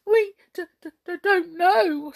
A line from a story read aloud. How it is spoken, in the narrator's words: stammered the brownies in dismay